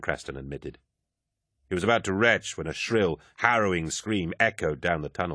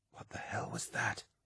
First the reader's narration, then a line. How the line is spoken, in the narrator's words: Euphrates whispered